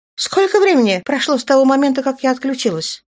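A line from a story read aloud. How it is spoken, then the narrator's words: Sharp question, female. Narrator (Russian): резко спросила она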